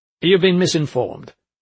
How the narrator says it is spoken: he said stiffly

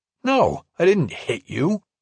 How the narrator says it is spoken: he said indignantly

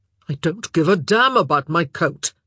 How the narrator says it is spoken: Philip snapped

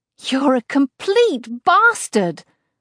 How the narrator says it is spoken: I yell

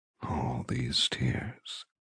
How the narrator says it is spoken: he rasps

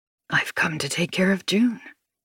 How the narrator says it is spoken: he says quietly

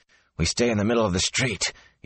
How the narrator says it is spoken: he said hoarsely

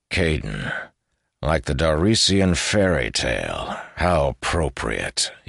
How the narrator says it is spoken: he said dryly

